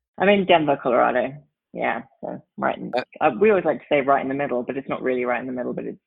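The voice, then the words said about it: English accent, slightly Antipodean. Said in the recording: “you're from England originally ... I haven't lost the accent, obviously. Although every now and again, it sounds a little Antipodean.”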